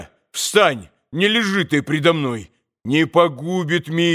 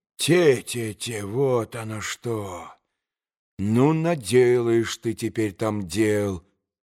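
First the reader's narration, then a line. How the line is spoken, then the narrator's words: Muttering to himself. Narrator (Russian): пробормотал про себя Петр Ильич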